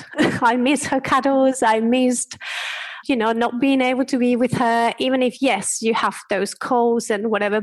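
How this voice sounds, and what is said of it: Spanish accent in English. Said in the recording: “can hear my accent, I am from Spain”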